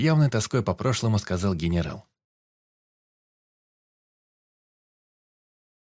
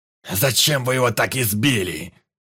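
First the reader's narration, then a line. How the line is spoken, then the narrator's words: Booming rough old voice. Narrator (Russian): прогремел грубый старческий голос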